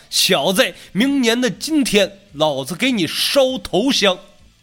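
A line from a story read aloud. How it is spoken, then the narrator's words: Old man shouting. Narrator (Chinese): 一个老者的声音冲着袁青南喊道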